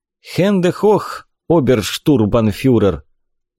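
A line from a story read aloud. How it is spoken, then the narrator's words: Tired. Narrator (Russian): устало сказал Горин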